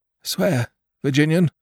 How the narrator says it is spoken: panted out

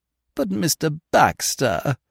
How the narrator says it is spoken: moaned Lady Constance

